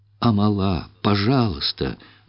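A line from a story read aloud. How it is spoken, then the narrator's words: Pleading. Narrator (Russian): взмолилась Чиндамани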